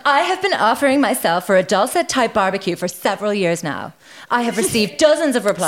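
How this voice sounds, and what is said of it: Valley girl voice. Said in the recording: “I was doing kind of like a valley girl.”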